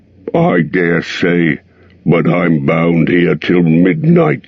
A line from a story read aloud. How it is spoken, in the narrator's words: grumbled the fat dwarf